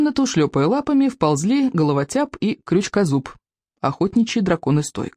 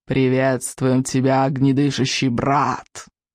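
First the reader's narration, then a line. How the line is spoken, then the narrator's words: Hissing. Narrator (Russian): прошипел головотяп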